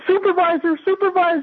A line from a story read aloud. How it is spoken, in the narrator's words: she immediately yelled